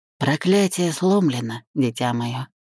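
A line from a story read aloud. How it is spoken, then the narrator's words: Quiet. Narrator (Russian): сказал он тихо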